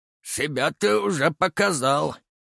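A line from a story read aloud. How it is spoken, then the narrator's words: Smirking grunt. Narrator (Russian): хмыкнул Евсей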